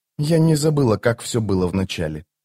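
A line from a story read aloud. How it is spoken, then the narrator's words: Soft, pensive. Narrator (Russian): мягко сказала она, раздумывая о своем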